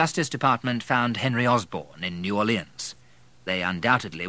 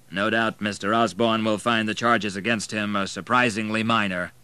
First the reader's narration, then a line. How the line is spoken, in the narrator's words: commented the lawyer dryly